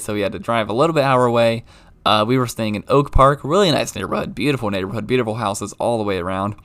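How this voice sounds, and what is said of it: Strained, sore-sounding voice. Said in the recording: “my voice is still killing me”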